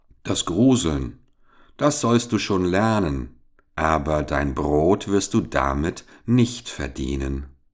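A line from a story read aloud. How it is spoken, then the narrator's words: Sighing reply. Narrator (German): Der Vater seufzte und antwortete ihm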